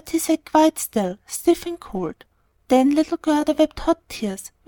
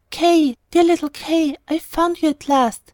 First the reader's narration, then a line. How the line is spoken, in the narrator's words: exclaimed